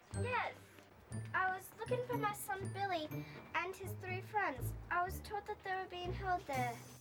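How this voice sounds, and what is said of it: Speaks with a possibly faked accent. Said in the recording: “I don't know if she's faking that accent or not. ... If she is faking it, she's doing pretty good.”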